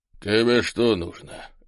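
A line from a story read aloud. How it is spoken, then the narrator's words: Unfriendly grumble. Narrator (Russian): недружелюбно буркнул полный мужчина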